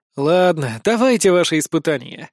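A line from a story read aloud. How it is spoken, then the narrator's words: Sigh. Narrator (Russian): вздохнул я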